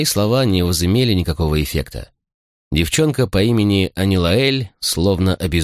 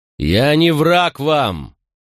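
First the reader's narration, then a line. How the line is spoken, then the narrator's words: Fairly loud repetition. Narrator (Russian): вновь довольно громко повторил я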